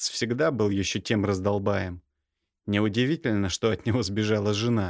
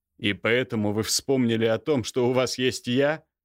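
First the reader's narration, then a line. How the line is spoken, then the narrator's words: Sullen, through gritted teeth. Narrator (Russian): хмуро процедил Михаил, почему-то не сильно удивляясь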